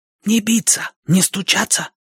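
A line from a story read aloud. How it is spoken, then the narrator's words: Whisper. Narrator (Russian): прошептала она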